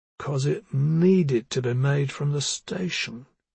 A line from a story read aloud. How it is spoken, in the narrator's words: he murmured